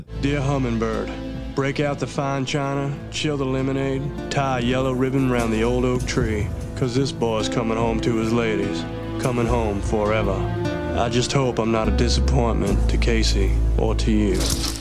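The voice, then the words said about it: Spot-on American southern accent. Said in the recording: “southern accent in Con Air was spot on ... the best southern accent”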